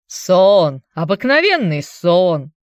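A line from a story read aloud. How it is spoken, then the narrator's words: Mocking old man's interjection. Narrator (Russian): насмешливо вставил старый доктор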